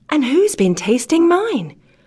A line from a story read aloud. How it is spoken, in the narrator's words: cried the middling-sized bear in a middling-sized voice